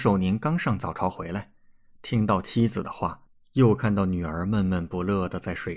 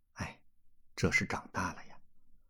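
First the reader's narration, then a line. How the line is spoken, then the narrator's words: Soft sighing mutter. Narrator (Chinese): 王母 暗叹一口气，轻声嘀咕道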